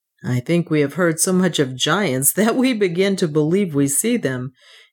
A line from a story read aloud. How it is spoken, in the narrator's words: he said, laughing